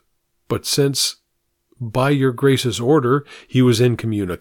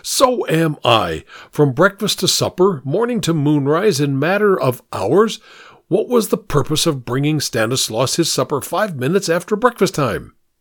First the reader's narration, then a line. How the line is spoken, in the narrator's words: cried the Duke